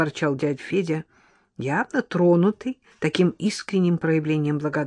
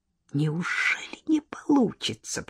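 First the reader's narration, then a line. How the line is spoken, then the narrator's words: Mutter. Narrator (Russian): пробормотал Леня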